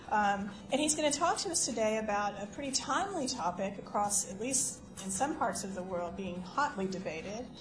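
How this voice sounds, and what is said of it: Southern US accent. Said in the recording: “I've got this southern accent ... from the U.S.”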